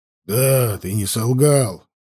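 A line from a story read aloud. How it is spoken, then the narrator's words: Gruff grumble. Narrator (Russian): буркнул он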